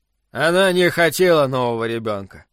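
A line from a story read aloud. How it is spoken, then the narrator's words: Grim. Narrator (Russian): добавил он мрачно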